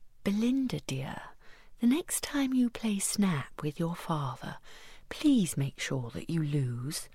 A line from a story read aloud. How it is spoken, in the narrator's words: very quietly and whispered in her ear